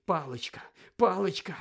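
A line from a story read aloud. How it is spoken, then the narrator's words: Muttering. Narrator (Ukrainian): бурмотів Гаррі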